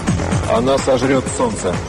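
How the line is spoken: Calm. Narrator (Russian): спокойно произнес Мариарти

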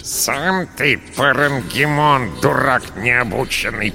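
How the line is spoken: Creaky rat voice. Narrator (Russian): проскрипела крыса

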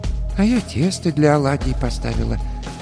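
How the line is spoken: Quiet, old woman. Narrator (Russian): тихо сказала баба Маша

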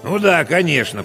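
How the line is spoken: Grumbling, weary veteran. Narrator (Russian): проворчал техник, переживший на своей должности уже 3 генсеков и 2 распорядителей

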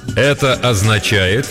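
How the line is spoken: Loud and slow. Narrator (Russian): громко и медленно произносит он

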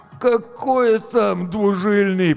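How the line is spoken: Moaning. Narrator (Russian): простонал Гоша

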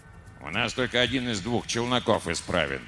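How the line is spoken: Grumbling mutter. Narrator (Russian): пробурчал инженер Ри

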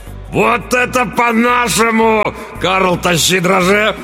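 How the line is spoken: Roar. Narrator (Russian): взревел тот

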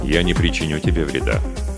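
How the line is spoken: Calm. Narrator (Russian): спокойно произнес Джаф

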